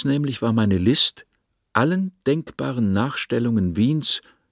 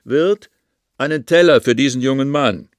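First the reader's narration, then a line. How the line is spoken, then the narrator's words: Called out. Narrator (German): rief in die Stube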